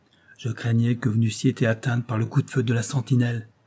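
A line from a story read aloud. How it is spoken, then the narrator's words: Plain. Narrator (French): lui dit-il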